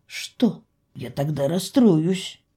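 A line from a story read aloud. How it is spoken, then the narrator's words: Snort. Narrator (Russian): Я фыркнула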